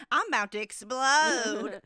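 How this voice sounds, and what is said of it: Put-on Southern US accent. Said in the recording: “Why is the terrorist have a southern accent? ... It's good we went that accent, actually ... we both naturally went to that accent.”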